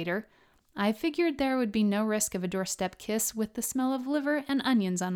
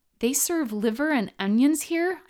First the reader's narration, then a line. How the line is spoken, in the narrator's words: squealed